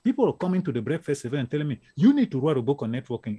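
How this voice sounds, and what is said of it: African accent. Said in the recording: “You can tell by my accent. I'm from Africa, live in Europe, and then came to the US.”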